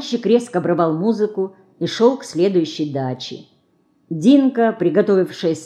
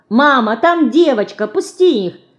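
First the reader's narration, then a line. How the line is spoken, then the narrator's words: Children shouting while running. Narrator (Russian): кричали они, подбегая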